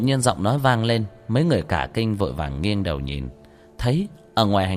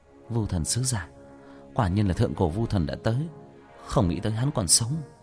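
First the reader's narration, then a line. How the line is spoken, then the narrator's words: Muttering. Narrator (Vietnamese): Nam Vân Hy lẩm bẩm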